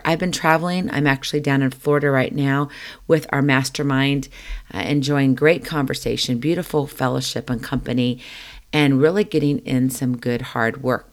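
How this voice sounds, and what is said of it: Rusty, under-the-weather voice. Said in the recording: “as you can probably tell just a little bit, my voice is a little under the weather ... my voice is a little rusty”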